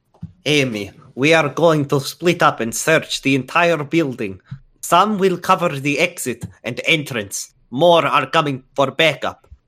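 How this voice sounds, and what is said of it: Put-on Russian accent. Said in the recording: “in just a tiny bit better Russian accent than I did before”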